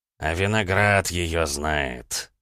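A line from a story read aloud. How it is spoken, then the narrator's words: Stunned mutter. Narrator (Russian): ошарашенно пробормотал Алессандро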